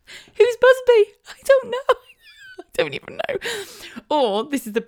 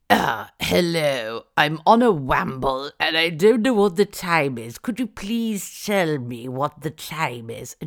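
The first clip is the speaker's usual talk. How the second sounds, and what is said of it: Put-on posh English accent. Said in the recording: “Spoke with an incredible plum in their mouth. And we used to obviously mimic the accents.”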